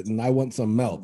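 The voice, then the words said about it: Put-on Finnish accent. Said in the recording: “for all the Finland listeners out there, I apologize for that accent. I was just trying to be cool.”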